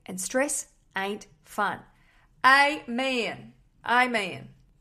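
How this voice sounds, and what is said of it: Bad put-on Southern accent. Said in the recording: “Really bad southern accent.”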